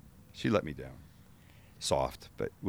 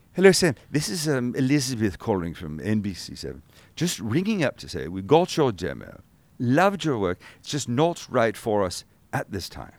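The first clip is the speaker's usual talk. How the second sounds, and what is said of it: Put-on English accent. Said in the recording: “It's a lovely English woman ... with an English accent”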